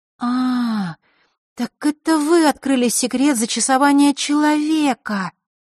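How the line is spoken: Drawled. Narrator (Russian): протянула Василиса

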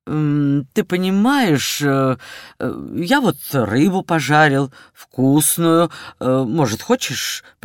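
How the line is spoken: Mumbled. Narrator (Russian): пробормотал он

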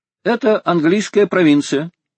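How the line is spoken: Calm. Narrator (Russian): ответил спокойно Толлини

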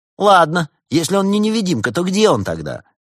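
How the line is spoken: Teenager, snide question. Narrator (Russian): ехидно спросил подросток

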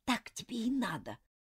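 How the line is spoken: Whisper. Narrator (Russian): прошептала она

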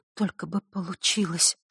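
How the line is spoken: Whispering to herself. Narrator (Russian): шептала она про себя

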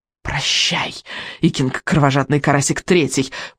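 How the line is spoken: Whispered. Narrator (Russian): прошептал Элвин вероломный

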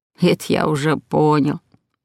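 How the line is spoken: Grandfather's snort. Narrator (Russian): хмыкнул дедушка Оскар

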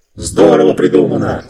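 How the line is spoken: Several voices shouting. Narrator (Russian): закричали голоса

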